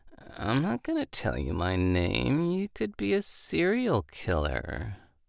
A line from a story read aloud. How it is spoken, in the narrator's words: She said in her weary voice